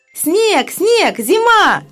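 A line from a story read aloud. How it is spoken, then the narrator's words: Girls shouting. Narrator (Russian): закричали девочки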